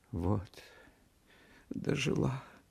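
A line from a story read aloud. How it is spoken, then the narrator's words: Tearful speech. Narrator (Russian): проговорила она сквозь слезы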